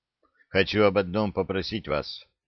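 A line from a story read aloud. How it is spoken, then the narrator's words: Admiral's muffled voice. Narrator (Russian): глухо сказал адмирал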